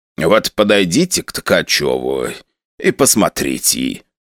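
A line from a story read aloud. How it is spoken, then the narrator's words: Old man, hoarse. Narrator (Russian): прохрипел дедок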